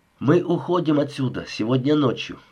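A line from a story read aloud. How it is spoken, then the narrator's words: Plain. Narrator (Russian): сказал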